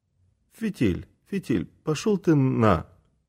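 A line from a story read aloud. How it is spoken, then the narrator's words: Quiet reply. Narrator (Russian): тихонько отвечает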